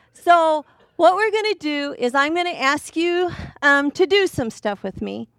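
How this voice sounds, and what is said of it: Voice sounds slightly off. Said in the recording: “I can tell that I was singing because my voice sounds kind of funny”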